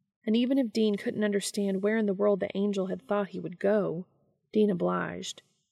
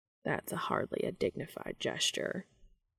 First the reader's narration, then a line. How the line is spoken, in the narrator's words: Cass muttered